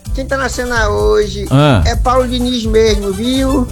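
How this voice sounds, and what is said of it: Imitates an old grandmother's voice. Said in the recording (Portuguese): “Tá imitando vovó, né, cara? Rapaz, você para de imitar a vovó.”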